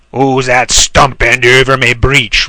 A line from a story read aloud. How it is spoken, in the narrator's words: roared the horrible trowel